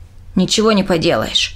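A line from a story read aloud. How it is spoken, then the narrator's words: Muttering. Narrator (Russian): пробурчал Дик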